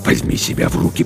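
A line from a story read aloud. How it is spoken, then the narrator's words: Hissed. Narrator (Russian): прошипел капитан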